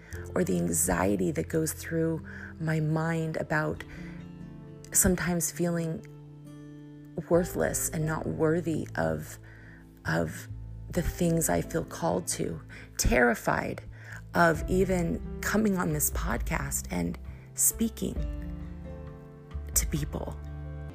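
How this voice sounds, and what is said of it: Emotional, tearful voice. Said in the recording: “I'm just getting a little emotional.”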